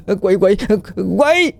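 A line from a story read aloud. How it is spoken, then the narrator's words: Terrified scream. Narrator (Vietnamese): Một tiếng hét thất thanh vang lên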